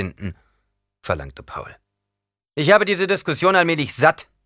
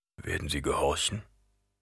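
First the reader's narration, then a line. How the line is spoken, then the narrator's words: Quiet question. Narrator (German): fragte Gurney leise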